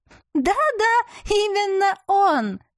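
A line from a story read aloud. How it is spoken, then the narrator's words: Joyful confirmation. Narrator (Russian): радостно подтвердила сестрица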